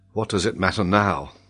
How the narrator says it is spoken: said Glenarvan

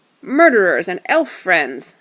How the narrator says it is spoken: the great goblin shouted

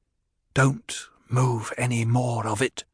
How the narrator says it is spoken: Paul said, and his voice was almost a whisper

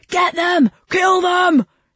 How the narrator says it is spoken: they yelled

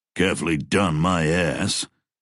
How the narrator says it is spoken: Cutler growled

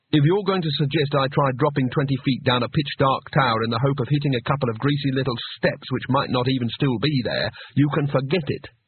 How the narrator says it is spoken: said Rincewind sharply

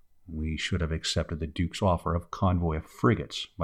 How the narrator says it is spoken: muttered the mate

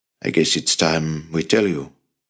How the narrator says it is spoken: he said

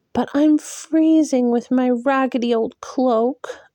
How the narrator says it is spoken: Elaine pleaded

